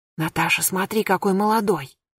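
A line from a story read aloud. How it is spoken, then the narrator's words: Whispered. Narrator (Russian): шепнула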